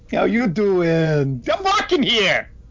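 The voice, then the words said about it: Put-on Brooklyn accent. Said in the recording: “attempt to do a Brooklyn accent”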